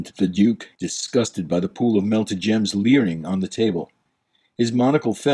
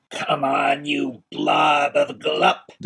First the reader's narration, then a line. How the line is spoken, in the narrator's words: the cold Duke roared